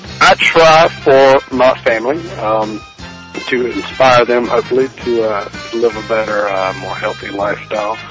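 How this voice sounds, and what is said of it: South Georgia redneck accent. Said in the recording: “accents. I figure I got a good one for you. It's not a foreign accent, but it's a South Georgia redneck accent.”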